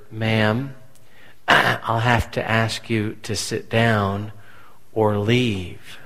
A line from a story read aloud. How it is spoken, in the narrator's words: an elder in our church whispered